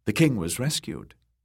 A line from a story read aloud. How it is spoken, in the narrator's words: she said